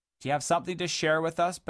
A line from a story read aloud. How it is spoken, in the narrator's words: bellowed Sir Lonk in a condescending manner